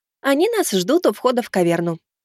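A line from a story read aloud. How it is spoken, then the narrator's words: Cheerful female prompt. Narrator (Russian): бодро подсказала подруга Володи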